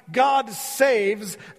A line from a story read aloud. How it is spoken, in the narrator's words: shouting